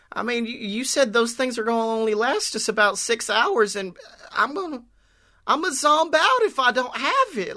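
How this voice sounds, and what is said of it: Put-on Southern American accent. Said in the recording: “Can we give a southern accent to Abe so he's got a little bit of a difference? ... if you want to bring back Abe in a southern accent.”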